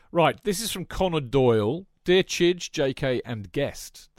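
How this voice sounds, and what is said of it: Put-on Yorkshire accent. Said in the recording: “I don't know why I'm doing it in a Yorkshire accent.”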